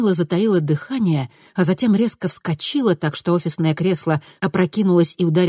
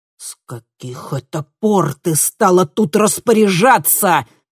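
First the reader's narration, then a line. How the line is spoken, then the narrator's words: Growled reply. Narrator (Russian): прорычал в ответ Хольк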